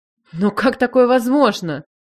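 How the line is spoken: Astonished breath. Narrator (Russian): выдохнула я в изумлении

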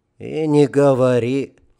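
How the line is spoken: Sighing. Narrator (Russian): вздохнул Романов

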